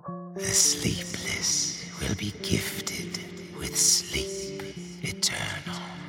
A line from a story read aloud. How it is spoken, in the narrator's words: a voice behind me, one that didn't come from human lips, and which said to me in raspy tones